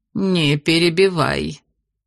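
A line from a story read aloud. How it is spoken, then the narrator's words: Cold, stern old woman. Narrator (Russian): холодно сказала бабушка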